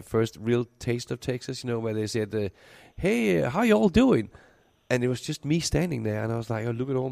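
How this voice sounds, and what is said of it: Danish accent. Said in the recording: “original uh, Danish accent. ... You still have that intact.”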